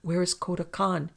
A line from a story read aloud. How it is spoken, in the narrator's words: cried Joan, seeming finally to shake off her daze